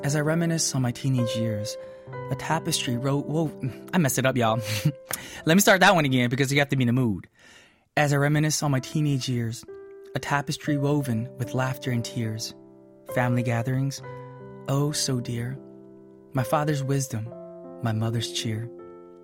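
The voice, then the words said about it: Exaggerated poetic reading voice. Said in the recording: “I'm going to be in my most poetic voice and mood”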